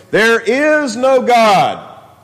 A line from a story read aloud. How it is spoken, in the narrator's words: the man suddenly called out in a rather loud voice